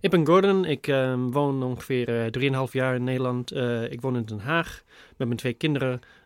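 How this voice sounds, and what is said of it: Dutch spoken with a Scottish accent. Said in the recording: “you speak Dutch with a Scottish accent, which is kind of strange to me ... I think it sounds a little Scottish ... There is an accent, but I couldn't really place it”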